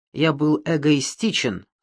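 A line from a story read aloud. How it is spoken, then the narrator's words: Plain. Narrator (Russian): сказал бы он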